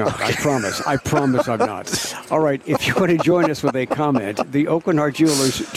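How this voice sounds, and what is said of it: Usual voice. Nothing is said of it.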